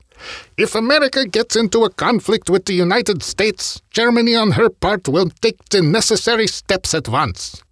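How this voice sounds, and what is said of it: Bad put-on German accent. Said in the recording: “Apologies for the bad German accent”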